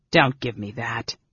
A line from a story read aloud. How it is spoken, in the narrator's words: Tanis growled